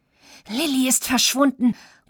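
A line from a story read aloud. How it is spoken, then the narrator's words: Breathless panting. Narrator (German): keuchte Florian außer Atem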